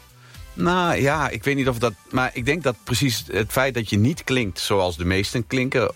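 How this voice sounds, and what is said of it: Eastern Dutch regional accent. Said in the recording (Dutch): “dat wat Oosterse accent. Dat klinkt dus op landelijke televisie heel erg door”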